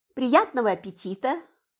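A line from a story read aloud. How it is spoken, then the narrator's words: Plain. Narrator (Russian): сказала я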